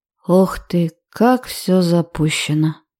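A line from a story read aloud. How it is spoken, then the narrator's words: Drawn-out drawl. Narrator (Russian): протянул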